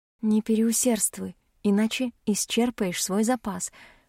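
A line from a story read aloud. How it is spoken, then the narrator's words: Whispered instruction. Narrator (Russian): шепотом наставляю я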